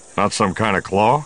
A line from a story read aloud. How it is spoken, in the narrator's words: The Wookiee rumbled again